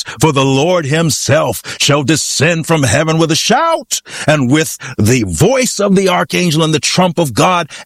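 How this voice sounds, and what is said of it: Preaching voice. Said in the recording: “put on my preaching voice,”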